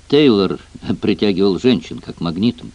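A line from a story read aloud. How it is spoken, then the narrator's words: Reluctant mutter. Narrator (Russian): неохотно пробормотал Джек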